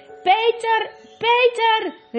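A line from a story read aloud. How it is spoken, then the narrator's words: Calling out. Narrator (Dutch): riep Edmund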